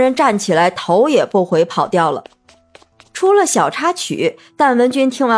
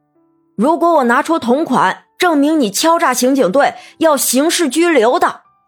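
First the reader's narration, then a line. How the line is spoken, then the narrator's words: Shouted. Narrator (Chinese): 周警督叫道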